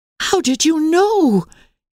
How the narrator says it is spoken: gasped Emily in amazement

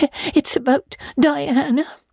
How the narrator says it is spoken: sobbed Anne luxuriously

